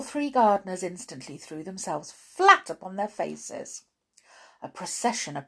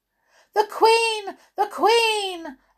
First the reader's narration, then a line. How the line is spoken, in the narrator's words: Suddenly, another gardener called out